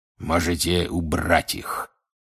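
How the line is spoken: Hoarse growl. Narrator (Russian): хрипло прорычал он

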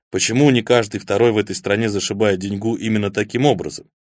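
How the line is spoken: Gruff mutter. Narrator (Russian): буркнул Тень

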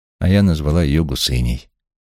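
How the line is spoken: Sighing. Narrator (Russian): вздохнула Джулия

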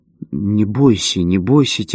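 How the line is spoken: Quiet speech. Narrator (Russian): тихо сказал он

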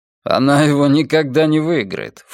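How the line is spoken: Scornful snort. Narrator (Russian): фыркнул я

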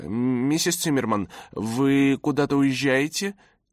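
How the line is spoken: Uncertain question. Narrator (Russian): неуверенным голосом спросила Роза Рита

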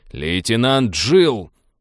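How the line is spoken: Barking over intercom. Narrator (Russian): рявкнул капитан в интерком

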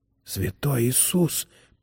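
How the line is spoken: Whisper. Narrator (Russian): прошептал Чарли

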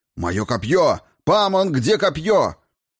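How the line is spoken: Shouted. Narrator (Russian): одновременно закричал

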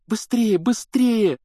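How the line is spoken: Pleading. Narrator (Russian): взмолилась Гермиона

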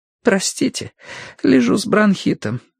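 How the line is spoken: Hoarse voice. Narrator (Russian): хрипло проговорила она

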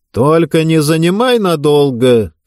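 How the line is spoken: Shouted from bed. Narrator (Russian): крикнул он с постели

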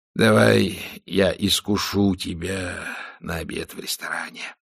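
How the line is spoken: Hissing. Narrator (Russian): прошипел он

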